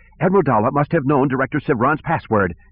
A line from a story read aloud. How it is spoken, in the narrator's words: Kwai cried